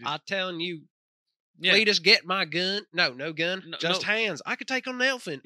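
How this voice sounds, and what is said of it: Put-on American Southern accent. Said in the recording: “like a southern family ... That's the accent what I needed.”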